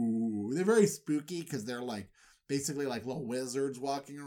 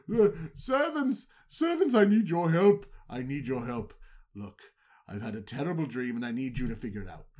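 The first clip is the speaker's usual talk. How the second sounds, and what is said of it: Commanding pharaoh character voice. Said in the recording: “put on my pharaoh voice ... he's really good at voices”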